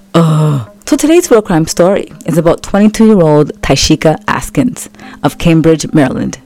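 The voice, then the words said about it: Scratchy, hoarse voice. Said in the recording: “Please don't mind my voice. It's a little bit scratchy because I have a cold.”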